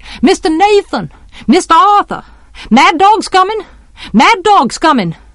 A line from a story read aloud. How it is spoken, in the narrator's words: She got no answer, and she shouted